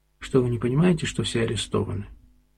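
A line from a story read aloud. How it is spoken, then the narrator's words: Quiet reply. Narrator (Russian): Федоров тихо отвечал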